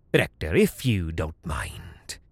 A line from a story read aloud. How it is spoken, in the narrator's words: McCown Cleggan growled